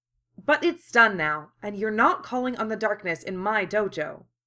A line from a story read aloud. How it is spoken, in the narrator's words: Kaoru said firmly